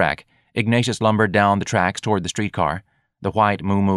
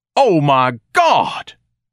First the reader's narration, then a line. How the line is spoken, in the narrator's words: Ignatius thundered